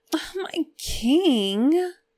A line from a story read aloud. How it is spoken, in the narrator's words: Shang Qinghua whined